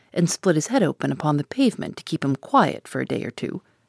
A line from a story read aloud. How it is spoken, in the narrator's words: muttered derisively